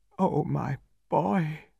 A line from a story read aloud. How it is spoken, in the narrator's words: faltered